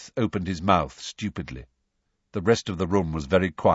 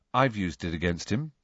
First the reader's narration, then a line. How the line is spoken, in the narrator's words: said Harry quietly